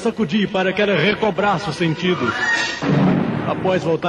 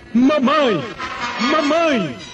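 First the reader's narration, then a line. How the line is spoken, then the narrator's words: Screaming. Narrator (Portuguese): gritando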